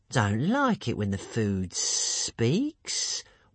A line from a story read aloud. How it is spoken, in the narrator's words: whined the creature to itself